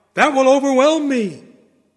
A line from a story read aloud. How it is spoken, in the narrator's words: he cried out